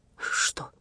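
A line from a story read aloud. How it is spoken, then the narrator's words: Whisper. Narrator (Russian): прошептал Виктор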